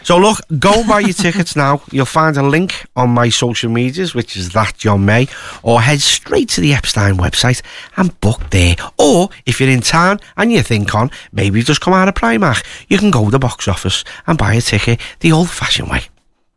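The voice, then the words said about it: Polished radio presenter voice. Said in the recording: “I'm getting a proper radio voice now”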